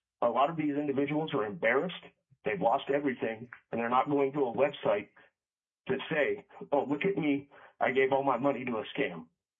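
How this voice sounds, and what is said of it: Emotional, strained voice. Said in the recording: “hear in my voice that I'm a bit emotional”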